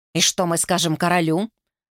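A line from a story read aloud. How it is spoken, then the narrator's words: Cold reply. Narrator (Russian): холодно ответила Регни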